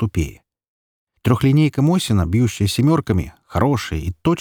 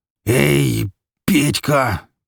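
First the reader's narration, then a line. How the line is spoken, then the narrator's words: Pained growl. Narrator (Russian): превозмогая боль, прорычал Микола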